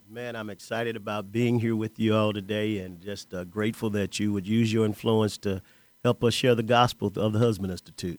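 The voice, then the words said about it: Great radio voice. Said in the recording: “he's got a great radio voice”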